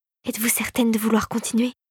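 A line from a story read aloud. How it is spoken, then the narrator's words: Whispered in ear. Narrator (French): lui souffla à l'oreille Philippe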